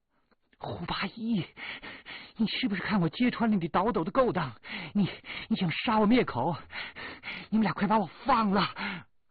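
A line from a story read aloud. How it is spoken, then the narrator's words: Gleeful loud laughter. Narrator (Chinese): 兴高采烈，哈哈大笑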